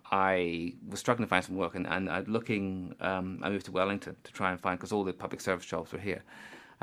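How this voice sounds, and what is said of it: Accent from outside New Zealand. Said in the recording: “you probably can guess from my accent, I'm not originally from here, but when I came to New Zealand”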